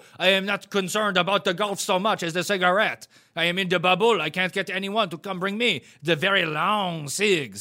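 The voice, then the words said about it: Put-on French accent. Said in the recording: “in your French accent?”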